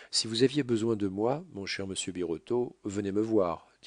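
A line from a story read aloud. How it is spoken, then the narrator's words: Plain. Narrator (French): dit Lourdois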